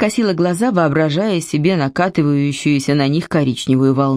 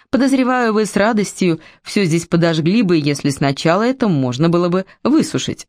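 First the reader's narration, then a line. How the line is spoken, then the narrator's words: Plain. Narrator (Russian): сказал он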